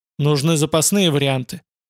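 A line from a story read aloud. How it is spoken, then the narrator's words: Muttering. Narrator (Russian): Буркнул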